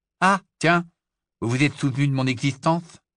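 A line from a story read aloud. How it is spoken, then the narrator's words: Plain. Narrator (French): dit-il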